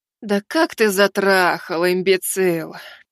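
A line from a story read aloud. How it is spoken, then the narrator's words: Sighing. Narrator (Russian): Вздохнула Василиса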